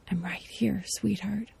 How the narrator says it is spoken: Someone whispers

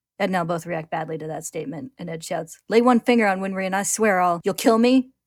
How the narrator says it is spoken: Scar snaps, interrupting him

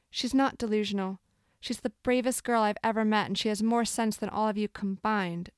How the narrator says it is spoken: said in a fierce voice

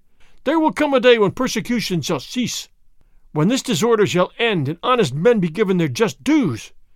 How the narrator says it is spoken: Fray Felipe cried

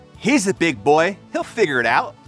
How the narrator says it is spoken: Paul said

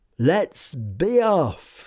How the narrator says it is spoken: he cried

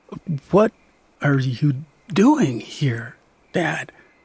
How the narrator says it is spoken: I asked drowsily

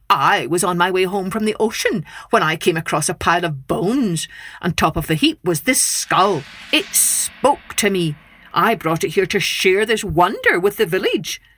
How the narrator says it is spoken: the man said haughtily

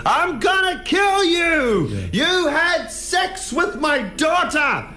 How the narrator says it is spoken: the farmer screamed at him

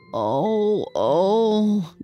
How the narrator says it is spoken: groaned the old woman

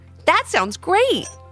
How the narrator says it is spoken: exclaimed Levi

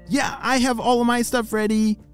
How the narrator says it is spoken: shouted Lucy

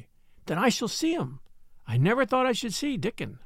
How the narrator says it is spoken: exclaimed Mary

